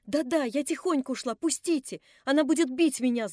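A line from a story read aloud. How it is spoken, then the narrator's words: Shouting while struggling. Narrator (Russian): закричала она, вырываясь из моих рук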